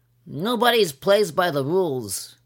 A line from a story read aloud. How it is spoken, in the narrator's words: he began to wail